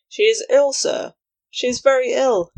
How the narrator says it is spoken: exclaimed

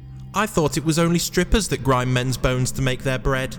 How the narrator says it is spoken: Jack shouted

